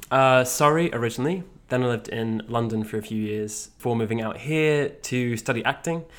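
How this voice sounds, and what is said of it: British English accent. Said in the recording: “a sweet accent ... I am from the UK.”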